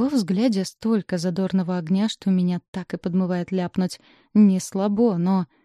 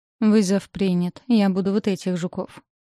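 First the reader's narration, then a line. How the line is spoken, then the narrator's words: Resigned, doomed tone. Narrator (Russian): обречённым тоном заявляю я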